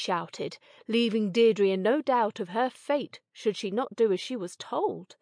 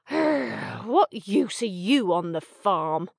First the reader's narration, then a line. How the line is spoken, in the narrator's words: Sammy growled, thinking him a waste of time